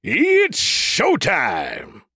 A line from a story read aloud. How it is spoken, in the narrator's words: the voice bellowed outside